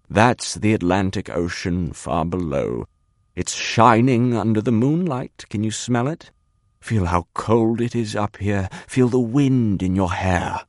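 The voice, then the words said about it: Smooth velvety conductor's drawl. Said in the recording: “in an entirely new voice, smooth, velvety, a conductor's drawl.”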